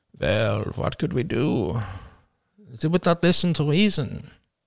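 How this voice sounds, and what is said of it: Funny villain accent. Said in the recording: “I'll give it a funny accent because this is a bad guy.”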